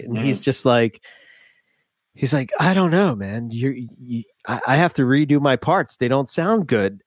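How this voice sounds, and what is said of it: Philadelphia accent. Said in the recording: “my stupid voice from Philadelphia, where I can't even say water”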